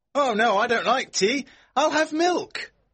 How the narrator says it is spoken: George shouts back

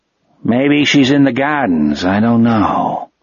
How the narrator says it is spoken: the man said gloomily

